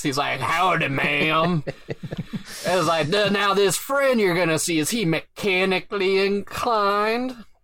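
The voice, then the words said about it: Old prospector character voice. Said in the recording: “I give him a prospector voice.”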